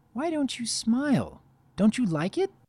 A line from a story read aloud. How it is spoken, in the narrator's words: Pinky was disheartened, inquiring quietly